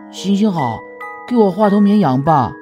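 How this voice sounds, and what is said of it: Strange, thin, small voice. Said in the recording (Chinese): “一个奇怪的细小声音”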